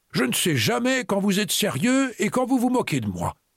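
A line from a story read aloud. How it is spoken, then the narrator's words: Grumbled. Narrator (French): grommela-t-il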